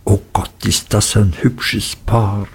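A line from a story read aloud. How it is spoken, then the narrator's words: Whispered. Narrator (German): Gummidge und Peggotty … zuflüsterten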